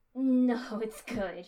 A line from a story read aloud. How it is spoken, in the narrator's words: she gasped